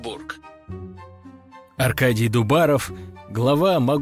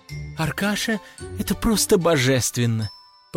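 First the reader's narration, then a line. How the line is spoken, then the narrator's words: Cooing nearby. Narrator (Russian): Проворковала рядом какая-то аристократка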